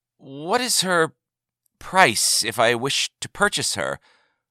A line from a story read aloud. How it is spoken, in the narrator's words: he began somewhat nervously